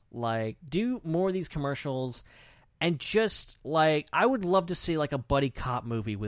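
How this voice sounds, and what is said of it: Usual voice. Nothing is said of it.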